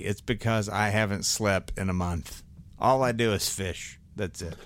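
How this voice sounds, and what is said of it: Tired, slurred speech. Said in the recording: “I'm slurring ... it's not from Pepsi”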